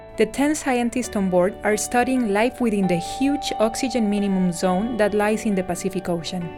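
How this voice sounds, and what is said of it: Mexican or Costa Rican accented English. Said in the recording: “from Mexico to Costa Rica, which incidentally are the two countries from where I come. As you may have noticed by my accent”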